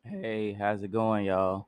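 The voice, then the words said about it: Voice squeaks. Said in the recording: “my voice just squeaked just then”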